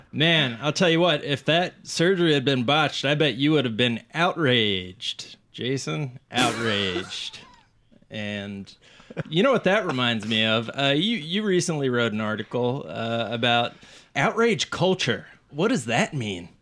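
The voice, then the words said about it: Bad morning zoo radio host voice. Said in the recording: “I'm doing my best impression of like a morning zoo, just a real bad morning zoo radio.”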